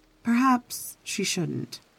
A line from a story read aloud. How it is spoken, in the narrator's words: she said softly